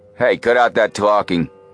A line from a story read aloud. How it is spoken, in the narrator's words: the gunman barked